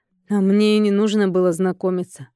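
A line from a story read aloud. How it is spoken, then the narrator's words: Snorting. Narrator (Russian): фыркнул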